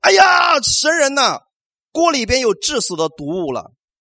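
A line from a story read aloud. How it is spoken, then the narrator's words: Shouting. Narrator (Chinese): 他们开始喊叫说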